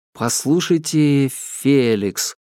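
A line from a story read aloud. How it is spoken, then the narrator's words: Uncertain. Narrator (Russian): начал я неуверенно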